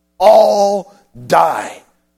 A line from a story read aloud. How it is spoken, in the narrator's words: the guard shrieked